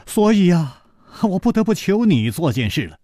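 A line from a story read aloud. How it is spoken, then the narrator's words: Sighing. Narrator (Chinese): 楚留香叹了一口气说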